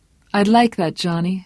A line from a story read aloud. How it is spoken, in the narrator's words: said warmly